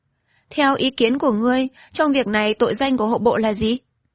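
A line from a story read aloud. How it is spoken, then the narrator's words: Smiling. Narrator (Vietnamese): hoàng đế mỉm cười nói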